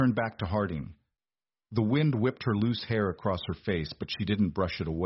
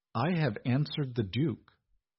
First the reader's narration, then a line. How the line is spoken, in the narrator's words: Beatrice said smoothly